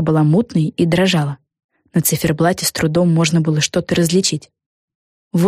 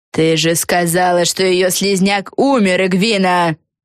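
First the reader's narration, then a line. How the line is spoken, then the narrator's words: Screamed. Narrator (Russian): Завопила Силия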